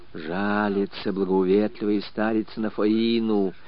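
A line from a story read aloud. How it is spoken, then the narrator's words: Whispered. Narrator (Russian): шептом сообщала попадья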